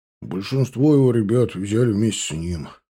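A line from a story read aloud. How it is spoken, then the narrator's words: Gruff foreman's grumble. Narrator (Russian): пробурчал грубоватый на вид и неказистый бригадир по имени Слава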